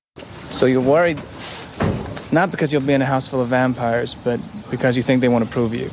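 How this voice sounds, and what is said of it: British accent slipping through. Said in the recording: “clearly learning to subdue his accent, because there are many, many times where I can hear it... When he says, so you're worried, it's fully British.”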